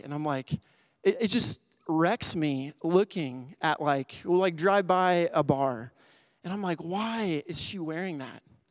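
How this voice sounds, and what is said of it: Emotional, choked-up speaking voice. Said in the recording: “I don't know why I'm getting emotional”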